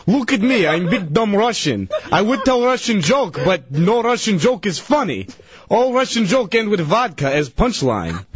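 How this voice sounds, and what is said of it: Put-on Russian accent. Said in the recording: “He was doing a Russian accent”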